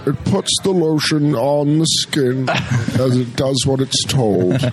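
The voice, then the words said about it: Buffalo Bill deep monster voice. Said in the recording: “your role as Buffalo Bill in Silence of the Lambs ... kind of like a monster style voice ... my monster voice”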